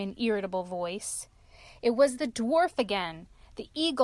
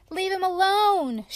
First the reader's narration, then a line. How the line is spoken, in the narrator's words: shouted Rose Red boldly